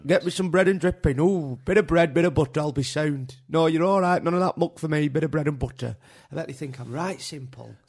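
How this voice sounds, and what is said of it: Exaggerated thick northern English accent. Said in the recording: “some thick northerner ... You don't have to do the accent.”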